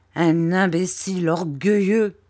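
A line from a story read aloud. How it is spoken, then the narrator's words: Plain. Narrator (French): dit ma tante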